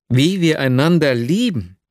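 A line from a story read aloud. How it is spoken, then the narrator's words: Exclaiming. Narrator (German): rief aus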